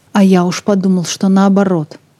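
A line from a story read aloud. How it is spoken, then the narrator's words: Angry. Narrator (Russian): зло сказал Сэнди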